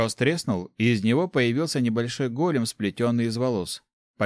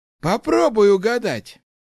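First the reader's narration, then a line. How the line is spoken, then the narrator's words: Wry snort. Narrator (Russian): хмыкнул Ларс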